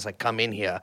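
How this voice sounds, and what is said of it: Put-on German accent. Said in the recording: “this in a German accent”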